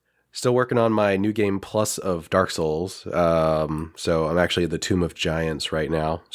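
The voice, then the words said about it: Nasal, congested voice. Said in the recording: “I'm sick as shit ... sore throat thing, which has now migrated into my sinuses ... I sound kind of nasally.”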